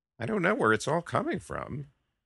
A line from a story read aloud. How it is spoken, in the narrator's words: Carlini mumbled